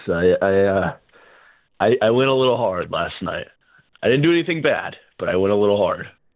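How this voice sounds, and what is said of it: Tired, worn-out voice. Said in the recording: “Oh, dude, I'm feeling it. I don't know if you can tell by my voice.”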